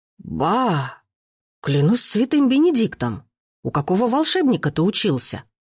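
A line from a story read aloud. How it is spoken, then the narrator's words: Astonished exclamation, cook. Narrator (Russian): с изумлением воскликнул повар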